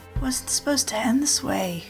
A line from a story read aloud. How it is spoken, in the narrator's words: whispered Golden Star